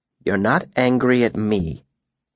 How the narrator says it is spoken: he said calmly

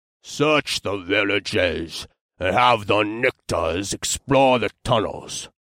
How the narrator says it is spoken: the black-haired elf said in a gruff voice

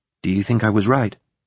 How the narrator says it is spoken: she asked, nervously

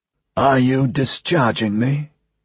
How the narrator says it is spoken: Gaffney croaked

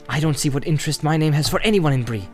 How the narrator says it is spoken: said Frodo angrily

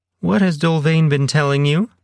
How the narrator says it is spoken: Celia demanded, her voice rising as her face reddened

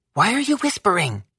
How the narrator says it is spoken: Coco whispered too

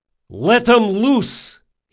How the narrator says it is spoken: shouted

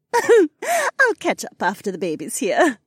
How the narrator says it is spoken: Becca giggled

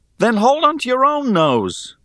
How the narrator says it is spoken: I exclaimed

